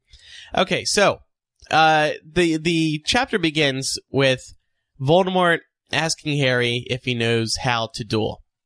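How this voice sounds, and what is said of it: Congested voice with New Jersey accent. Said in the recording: “This doesn't help when I'm congested. Can't breathe. ... It's my New Jersey accent. ... And also my cold.”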